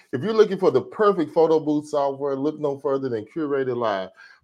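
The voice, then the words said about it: Radio DJ announcer voice. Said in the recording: “DJ voice”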